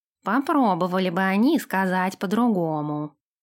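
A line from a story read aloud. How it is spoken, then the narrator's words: Grumbling. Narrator (Russian): пробурчал Нэш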